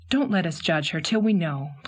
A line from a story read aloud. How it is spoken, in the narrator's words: pleaded Anne